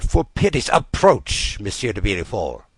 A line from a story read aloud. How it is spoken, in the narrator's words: murmured the minister